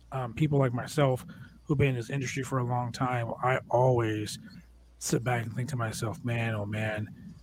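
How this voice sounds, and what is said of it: Slightly raspy voice. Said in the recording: “my voice is a little raspy right now”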